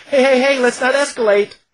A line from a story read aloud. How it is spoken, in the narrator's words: I shouted